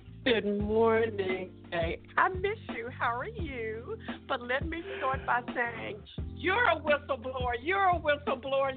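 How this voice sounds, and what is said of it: Southern American twang. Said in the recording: “She brings that southern twang in.”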